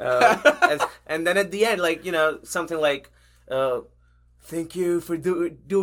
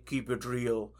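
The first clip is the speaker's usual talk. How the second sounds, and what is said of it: Poor imitation of another person's voice. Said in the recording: “I know i'm doing a pretty bad impression”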